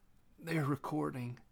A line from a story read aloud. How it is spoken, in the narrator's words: croaked